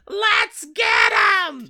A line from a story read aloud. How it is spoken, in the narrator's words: Claus screams